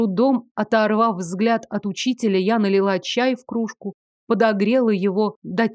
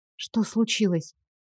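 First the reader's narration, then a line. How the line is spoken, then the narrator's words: Quiet question. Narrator (Russian): тихо спросила я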